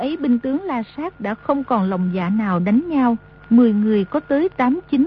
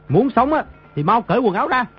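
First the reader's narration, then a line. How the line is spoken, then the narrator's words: Distant barked command. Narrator (Vietnamese): Trên đỉnh núi có người quát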